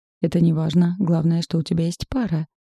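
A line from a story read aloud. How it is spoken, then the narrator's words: Pleased exclamation. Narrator (Russian): довольно воскликнул брат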